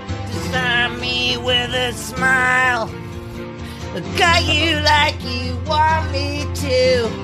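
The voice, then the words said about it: Imitates another person's singing voice. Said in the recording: “I do a good Billy Corgan impression ... Actually, it wasn't bad.”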